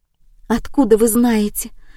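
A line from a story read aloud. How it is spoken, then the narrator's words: Whispered. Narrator (Russian): прошептала Нюся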